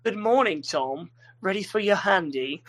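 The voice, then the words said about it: Put-on feminine British accent. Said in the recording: “I'd go for feminine voice, British accent.”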